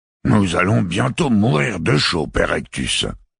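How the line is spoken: Cardinal growling. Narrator (French): gronda le cardinal Kiel

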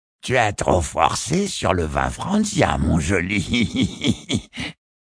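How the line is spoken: Sneering laugh. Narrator (French): ricane Yemata

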